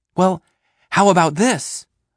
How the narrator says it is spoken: I'm shouting

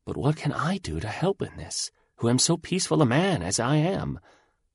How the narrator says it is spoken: he whispered back

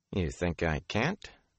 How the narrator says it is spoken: Matt muttered

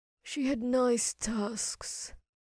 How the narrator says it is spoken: he said softly to himself

